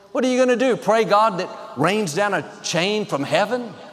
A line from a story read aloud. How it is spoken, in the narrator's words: They all laughed, made fun